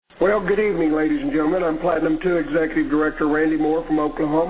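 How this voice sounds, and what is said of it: Hoarse, strained, nearly lost voice. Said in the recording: “apologize for my voice. I've lost my voice”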